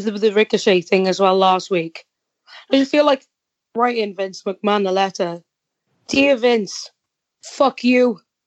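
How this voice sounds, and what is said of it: Welsh accent. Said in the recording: “And put in parentheses, Welsh accent. ... Make sure he knows that shit's me.”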